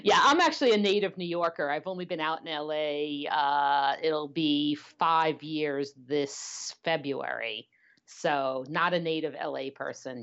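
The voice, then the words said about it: Brooklyn New York accent. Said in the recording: “You can probably hear some of that in my accent. ... I definitely can. ... I am Brooklyn born and bred”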